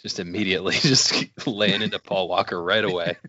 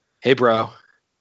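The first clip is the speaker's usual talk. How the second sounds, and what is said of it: Bland, flat imitation of another person. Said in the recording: “That was my Paul Walker impression. ... Just very bland and cardboardy.”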